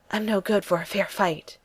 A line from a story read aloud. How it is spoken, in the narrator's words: he pants